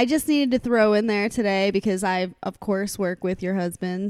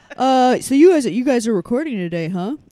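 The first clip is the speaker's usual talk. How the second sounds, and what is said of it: Imitates another person's voice. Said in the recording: “this is my Chuck impression”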